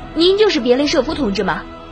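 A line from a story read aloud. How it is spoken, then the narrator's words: Eager hurried question. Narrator (Chinese): 年轻小伙子急忙，迫不及待地问道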